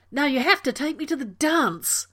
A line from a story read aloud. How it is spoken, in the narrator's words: Rodney yelled